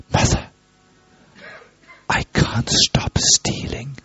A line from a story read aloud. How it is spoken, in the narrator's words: Krishna, very helplessly, had whispered